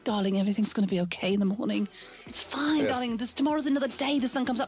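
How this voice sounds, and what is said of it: British accent imitating Kate Beckinsale. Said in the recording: “Kate Beckinsale ... with her British accent.”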